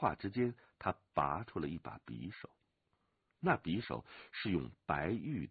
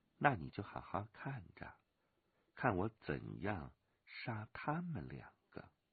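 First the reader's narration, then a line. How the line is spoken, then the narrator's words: Soft laughing voice. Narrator (Chinese): 飞鸿笑轻声说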